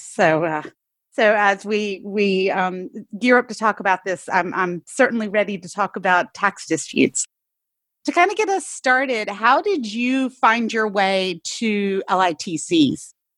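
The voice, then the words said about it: Hoarse voice. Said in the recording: “excuse my my hoarse voice right now”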